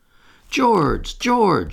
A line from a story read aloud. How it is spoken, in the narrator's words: she cried, when she could speak